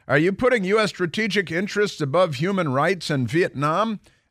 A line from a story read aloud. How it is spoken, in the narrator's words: another question is shouted